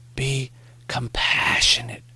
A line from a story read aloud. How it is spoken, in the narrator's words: Morrie whispered